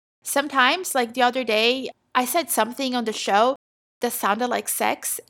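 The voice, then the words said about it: Noticeable non-native accent. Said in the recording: “I have an accent, as you can hear ... I have an accent.”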